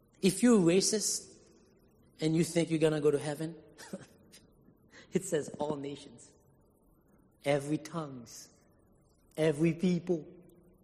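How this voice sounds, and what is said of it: Non-native English accent. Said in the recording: “I noticed an accent ... English is not my first language”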